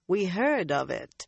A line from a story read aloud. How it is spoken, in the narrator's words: Swan said dryly